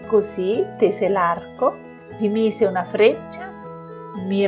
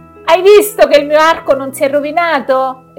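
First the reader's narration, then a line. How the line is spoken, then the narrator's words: Exclaimed. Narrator (Italian): esclamò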